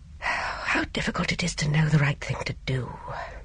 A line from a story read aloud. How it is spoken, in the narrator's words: He said with a sigh